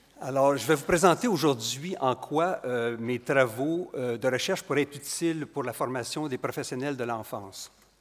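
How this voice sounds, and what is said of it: Quebec French accent. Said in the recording (French): “Vous reconnaissez mon accent du Québec.”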